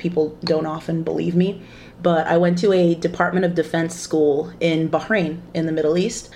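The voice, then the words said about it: American accent. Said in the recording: “I have an American accent.”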